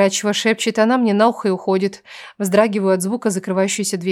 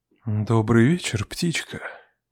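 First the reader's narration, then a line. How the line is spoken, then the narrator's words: Velvety voice. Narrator (Russian): уже бархатным голосом произносит мастер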